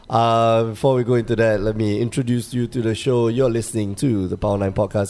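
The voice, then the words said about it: Sick, husky voice. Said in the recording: “irritated with my voice right now, I'm kind of sick... sexy voice”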